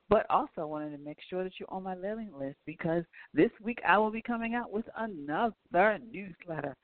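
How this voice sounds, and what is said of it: Strained, hoarse voice. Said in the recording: “I am losing my voice”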